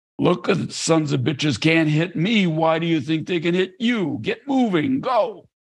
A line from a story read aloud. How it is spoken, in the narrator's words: yelling